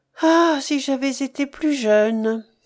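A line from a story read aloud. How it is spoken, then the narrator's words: Sighing. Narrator (French): soupirait-elle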